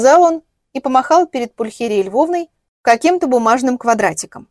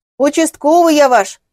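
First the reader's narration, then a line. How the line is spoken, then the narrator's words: Barked by young man. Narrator (Russian): гаркнул парень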